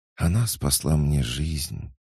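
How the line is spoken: Child's halting sigh. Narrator (Russian): прерывисто вздохнул мальчик

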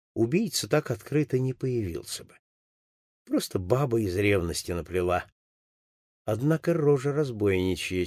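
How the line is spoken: Mutter. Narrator (Russian): пробормотал он

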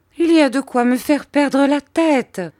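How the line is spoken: Exclaiming woman. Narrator (French): s'écria ma mère

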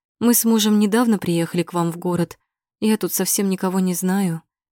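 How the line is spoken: Sad, smiling. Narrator (Russian): грустно улыбается

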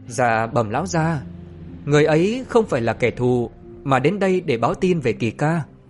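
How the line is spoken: Smiling. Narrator (Vietnamese): Trại Ngô Cơ mỉm cười

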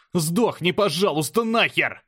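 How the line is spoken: Yelling at full voice. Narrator (Russian): Заорал во весь голос

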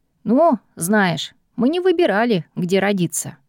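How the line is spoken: Wry snort. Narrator (Russian): хмыкнул Дин

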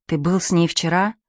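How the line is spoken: Barely audible question. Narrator (Russian): спрашивает Пьеро чуть слышно

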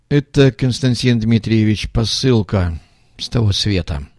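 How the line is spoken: Weary sigh, trumpeter. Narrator (Russian): вздохнул трубач, который уже не в первый раз повторял эту фразу

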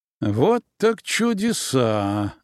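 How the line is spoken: Dull, muffled voice. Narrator (Russian): глухо произнес я

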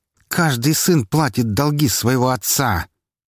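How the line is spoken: Sharp hiss. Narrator (Russian): резко прошипел Меньшиков

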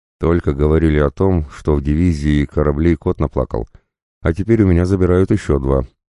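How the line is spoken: Sighing. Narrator (Russian): вздохнула капитан-командор

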